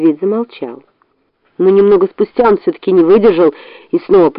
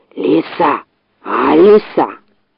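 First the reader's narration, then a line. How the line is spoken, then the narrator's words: Hissing fox. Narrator (Russian): Зашипела на него лиса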